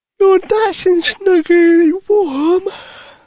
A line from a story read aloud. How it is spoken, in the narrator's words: Lucy yawned